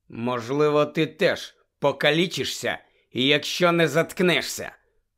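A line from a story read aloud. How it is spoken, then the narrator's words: Hiss from mouth corner. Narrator (Ukrainian): краєм рота просичав Гаррі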